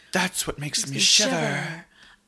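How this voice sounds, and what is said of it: Accent like Anna Faris, Jennifer Coolidge. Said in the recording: “it's like somewhere between Anna Faris and Jennifer Coolidge. I don't know where you've landed accent wise, but no one in this movie speaks with that accent.”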